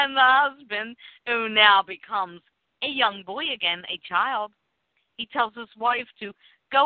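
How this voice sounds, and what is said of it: Usual voice. Nothing is said of it.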